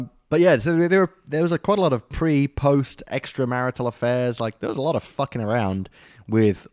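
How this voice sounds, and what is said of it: Usual voice. Nothing is said of it.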